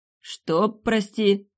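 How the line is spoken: Strained, forced out. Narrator (Russian): выдавил он наконец

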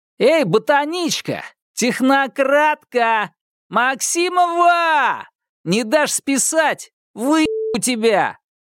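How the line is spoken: Yelling, others guffawing. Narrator (Russian): орал, и его поддерживали гоготом другие школьные деятели

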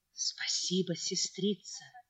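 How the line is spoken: Whisper. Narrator (Russian): прошептала Екатерина

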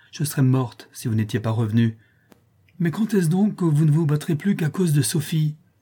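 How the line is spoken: Exclaimed. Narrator (French): s'écria-t-elle

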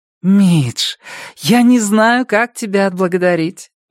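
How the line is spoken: Beaming exclamation. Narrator (Russian): воскликнула Робин, теперь уже сияя

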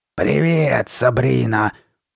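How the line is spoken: Growl. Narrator (Russian): прорычала Карли Бет

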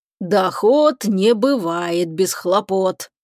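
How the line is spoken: Grumbling. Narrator (Russian): проворчал он

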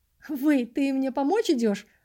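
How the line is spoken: Joking. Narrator (Russian): пошутил Фил

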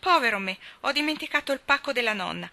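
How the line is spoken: Exclaiming. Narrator (Italian): A un tratto, a metà di un boccone, il signor Lori esclamò

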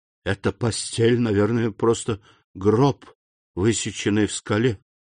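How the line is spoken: Whisper. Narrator (Russian): прошептал Данглар

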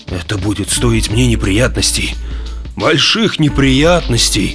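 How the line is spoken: Moaning. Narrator (Russian): стонал начальник

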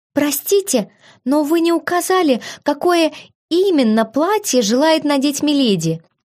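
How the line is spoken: Girl's timid squeak. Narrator (Russian): пискнула одна из девушек

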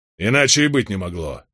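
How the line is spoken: Angrily raised voice. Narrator (Russian): сердито возвысил голос Роберт

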